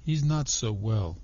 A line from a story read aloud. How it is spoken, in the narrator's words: he said